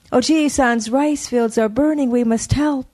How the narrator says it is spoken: cried

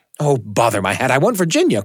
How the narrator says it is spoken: cried the Duke, laughing

